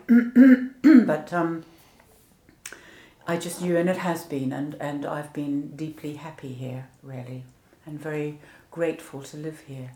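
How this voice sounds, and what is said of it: Soft non-English accent. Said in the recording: “I've still got my accent ... You have still got your accent ... it's too soft for Australian”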